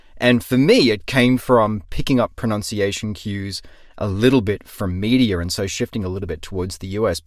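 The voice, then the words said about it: Cultivated Australian accent, slight US lean. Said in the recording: “my accent shifted a little bit ... cultivated Australian accent ... people thought I wasn't Australian”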